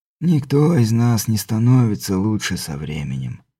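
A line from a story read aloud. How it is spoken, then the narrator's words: Sad smile. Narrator (Russian): грустно улыбнулся герцог Тальм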